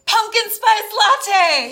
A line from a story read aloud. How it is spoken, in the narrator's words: He screamed